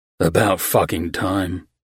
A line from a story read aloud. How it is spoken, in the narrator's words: Michael grumbled